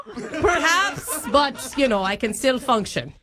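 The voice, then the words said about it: Mixed put-on Australian Irish British Scottish accent. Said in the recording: “my Australian, Irish, British, Scottish accent ... It's really hard to listen to”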